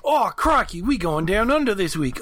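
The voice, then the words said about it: Put-on Australian accent. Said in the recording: “It is hard to do an Aussie accent because I always wonder, wait, am I sliding into a New Zealand accent?”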